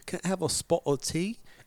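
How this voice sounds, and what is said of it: Put-on British accent. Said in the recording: “British accent... So British would be”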